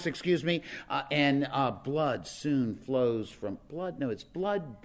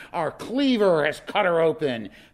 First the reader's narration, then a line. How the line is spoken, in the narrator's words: Robert Dabney Minor runs down the gun deck of the Virginia shouting